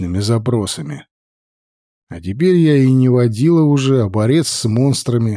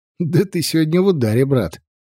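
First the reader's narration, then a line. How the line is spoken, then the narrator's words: Laughing. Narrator (Russian): рассмеялся Серега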